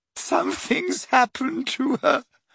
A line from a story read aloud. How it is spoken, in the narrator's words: sobbed Leanne